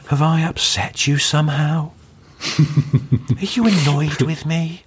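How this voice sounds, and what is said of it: Soft-voiced Louis Theroux impression. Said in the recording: “doing a really good impression of Louis Theroux, because what they nailed is when he does that quite soft voice”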